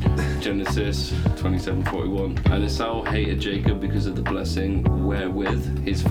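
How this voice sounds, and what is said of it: Usual voice. Nothing is said of it.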